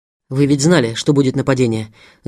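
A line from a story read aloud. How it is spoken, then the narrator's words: Angry. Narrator (Russian): Зло сказал Семен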